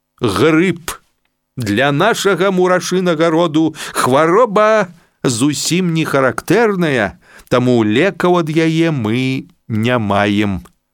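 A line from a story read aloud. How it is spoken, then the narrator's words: Stern doctor. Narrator (Russian): строго сказал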